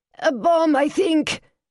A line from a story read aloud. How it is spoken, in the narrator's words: she shouted down the line, screams and shouts loud in the background